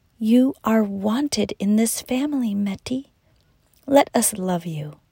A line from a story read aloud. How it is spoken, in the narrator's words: Mama Addie whispered